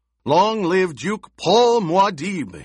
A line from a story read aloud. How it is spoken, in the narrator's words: he shouted